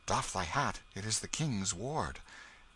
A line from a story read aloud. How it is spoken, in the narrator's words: whispering one to another